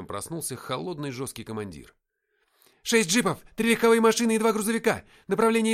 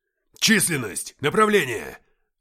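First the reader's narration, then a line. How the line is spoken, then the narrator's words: Sudden barked command. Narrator (Russian): рявкнул лейтенант, изменившись на глазах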